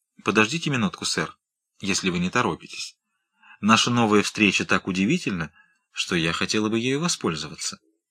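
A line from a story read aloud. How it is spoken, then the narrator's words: Quick and completely calm. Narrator (Russian): губы ее задрожали, но не от испуга, она поспешно и совершенно спокойно сказала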